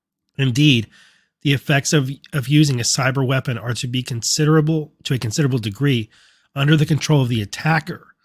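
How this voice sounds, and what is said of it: Strained voice giving out. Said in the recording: “my voice is giving up on me.”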